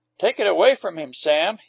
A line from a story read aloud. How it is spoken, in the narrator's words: he commanded sharply